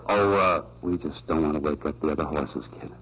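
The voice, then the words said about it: Whispering. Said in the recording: “What's everybody whispering for?”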